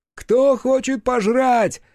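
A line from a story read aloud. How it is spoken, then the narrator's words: Cheerful shout. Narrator (Russian): весело крикнул Краевский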